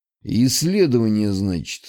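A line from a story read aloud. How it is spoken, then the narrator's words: Skeptical snort. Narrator (Russian): хмыкнул он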